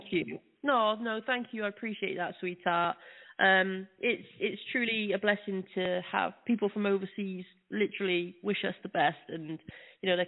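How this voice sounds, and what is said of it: British accent. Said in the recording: “your accent doesn't sound like Brooklyn. Are you from outside the United States? ... I'm from the UK.”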